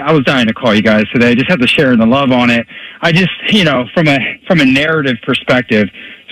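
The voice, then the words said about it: Out of breath. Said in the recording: “If I sound like I'm out of breath, it's because I was out on a run.”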